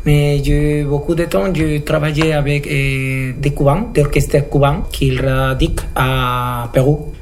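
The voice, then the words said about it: Slight Peruvian Spanish accent in French. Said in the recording (French): “avec ton petit accent ... Non, je suis péruvien, du Pérou.”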